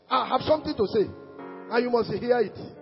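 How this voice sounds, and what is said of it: Loud shouting preacher delivery. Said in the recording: “why am I shouting? The entire message is a shout.”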